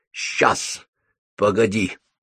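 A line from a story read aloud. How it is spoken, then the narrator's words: Gruff mutter. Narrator (Russian): буркнула Софи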